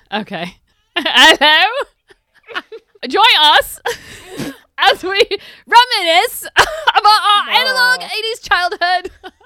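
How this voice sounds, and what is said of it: Put-on Cockney English accent. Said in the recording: “Do the whole intro in an English accent. ... Do an Eliza Doolittle accent.”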